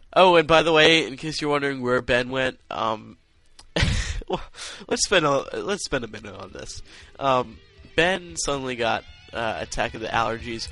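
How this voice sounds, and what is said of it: Congested, stuffy-nosed voice. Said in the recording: “if you can't hear it in my voice, I'm pretty congested too.”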